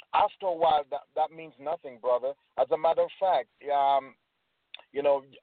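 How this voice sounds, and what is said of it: Jamaican accent. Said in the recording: “my crazy accent ... I'm from Jamaica”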